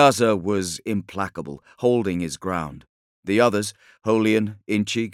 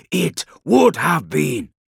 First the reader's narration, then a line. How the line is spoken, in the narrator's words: said Sannyasa firmly